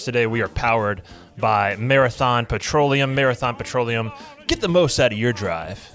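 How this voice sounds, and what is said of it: Announcer-style radio voice. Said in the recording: “How was that radio voice?”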